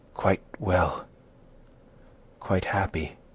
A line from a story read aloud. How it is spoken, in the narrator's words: murmured Isabella